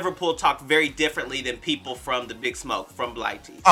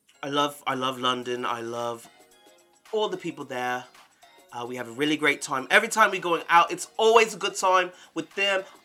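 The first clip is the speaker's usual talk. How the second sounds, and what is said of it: Put-on British accent. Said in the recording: “I usually have a good British accent”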